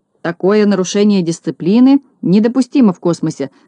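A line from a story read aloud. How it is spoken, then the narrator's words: Irritated grumble. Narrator (Russian): с раздражением проворчал Знайка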